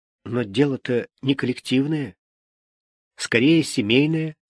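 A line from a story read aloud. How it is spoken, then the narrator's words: Soft, evasive. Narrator (Russian): продолжал мягко уходить в сторону Миша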